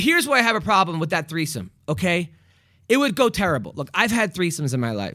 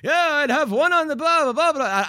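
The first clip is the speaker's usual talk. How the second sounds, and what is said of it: Weak attempt at Irish accent. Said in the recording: “if you do say what he said in a Irish accent, it's really funny ... I can't do an Irish accent”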